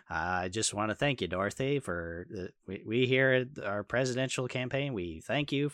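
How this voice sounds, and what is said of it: Impression of George H. W. Bush. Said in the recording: “Harry Shearer could do like a really good Bush Senior impression ... he can like get his voice down pretty simply”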